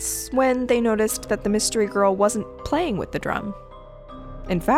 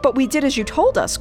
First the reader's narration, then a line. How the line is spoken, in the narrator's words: cried Blue Eyes and Turkey